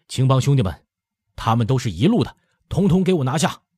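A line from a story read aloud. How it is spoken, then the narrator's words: Shouting. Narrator (Chinese): 燕入云 口里喊着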